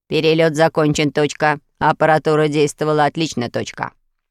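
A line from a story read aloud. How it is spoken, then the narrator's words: Smug deep voice. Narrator (Russian): Остров же самодовольно пробасил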